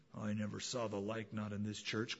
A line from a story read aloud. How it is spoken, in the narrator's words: grumbled a man